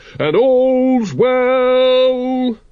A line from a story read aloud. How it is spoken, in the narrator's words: bellowed